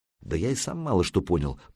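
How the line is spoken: Muttered. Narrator (Russian): пробормотал Санек

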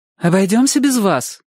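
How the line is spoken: Sharp, offended. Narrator (Russian): резко сказала мама, явно обиженная за Чика

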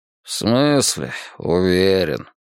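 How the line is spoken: Nasal muttering. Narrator (Russian): пробурчал он и заметил, что гнусавит

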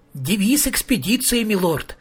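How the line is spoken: Joyful announcement. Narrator (Russian): радостно сообщил Маркоу

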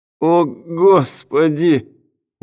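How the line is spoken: Loud groan, writhing. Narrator (Russian): громко простонал Брэдли, катаясь по земле

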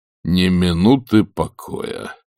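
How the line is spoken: Muttered. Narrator (Russian): пробормотал он

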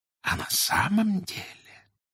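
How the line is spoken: Confidential whisper. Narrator (Russian): Сотрудница доверительно шепнула

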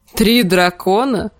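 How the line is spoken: Chuckle. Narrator (Russian): хохотнул Клиган

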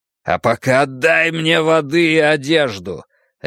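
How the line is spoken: Barking. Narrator (Russian): рявкнул я

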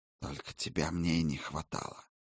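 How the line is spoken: Hissed. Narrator (Russian): прошипел чародей

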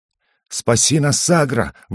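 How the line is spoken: Breathless. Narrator (Russian): выдохнул Угорь

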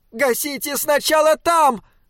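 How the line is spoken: Shriek. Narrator (Russian): завизжал шаттл

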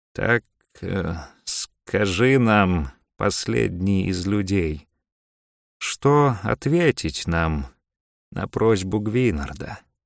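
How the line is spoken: Slow reply. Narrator (Russian): медленно отвечал Сусуум

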